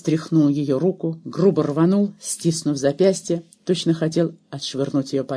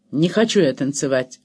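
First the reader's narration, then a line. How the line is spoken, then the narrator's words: Rude blunt statement. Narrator (Russian): грубо и прямо заявил Иоганн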